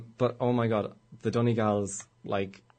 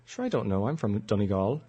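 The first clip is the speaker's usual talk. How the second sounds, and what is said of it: Imitated Donegal Irish accent. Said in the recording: “my imitation of a Donegal accent”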